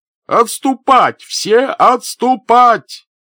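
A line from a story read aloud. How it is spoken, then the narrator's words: Shouted from afar. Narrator (Russian): прокричал он издалека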